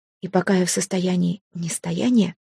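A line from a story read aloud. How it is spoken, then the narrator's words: Grim whispered joke. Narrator (Russian): шепотом мрачно пошутила я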